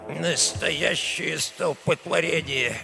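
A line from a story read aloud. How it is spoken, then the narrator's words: Grumbling old man. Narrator (Russian): недовольно бурчал старый Альфонсо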